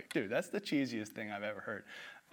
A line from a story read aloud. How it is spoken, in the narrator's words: burst out laughing